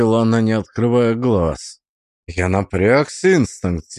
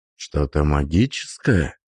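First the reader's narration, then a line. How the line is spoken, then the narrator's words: Whispered question. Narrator (Russian): спросил я шепотом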